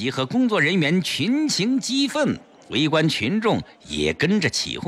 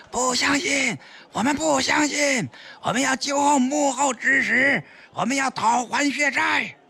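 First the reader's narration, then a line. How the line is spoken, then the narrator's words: Shouted in unison. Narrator (Chinese): 工作人员集体大喊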